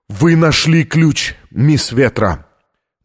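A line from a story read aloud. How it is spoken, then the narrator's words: Spoken after shaky breath. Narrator (Russian): Он судорожно вздохнул и произнес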